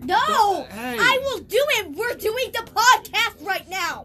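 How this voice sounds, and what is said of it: Yelling angrily. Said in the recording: “Quit yelling.”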